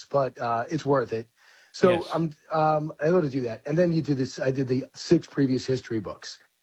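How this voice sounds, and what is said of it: Slightly hoarse voice. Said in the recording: “losing your voice ... I'm a little hoarse”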